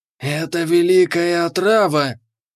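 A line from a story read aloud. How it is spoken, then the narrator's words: Respectful hiss. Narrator (Russian): прошипел он с уважением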